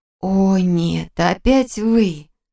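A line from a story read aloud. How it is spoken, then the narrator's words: Groaning. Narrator (Russian): застонала я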